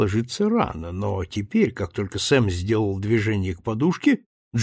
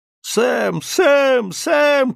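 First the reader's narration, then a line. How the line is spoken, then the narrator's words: Shouting. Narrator (Russian): кричал Джинджер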